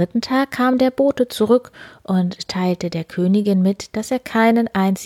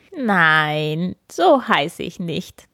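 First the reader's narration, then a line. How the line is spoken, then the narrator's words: Giggling little man calling. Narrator (German): das Männlein kicherte nur und rief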